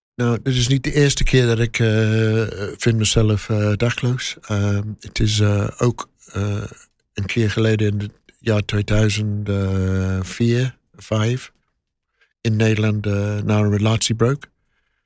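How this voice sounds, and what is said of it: English accent speaking Dutch. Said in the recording (Dutch): “Kon je horen aan je accent? ... Ja. Oorspronkelijk ... van Engeland.”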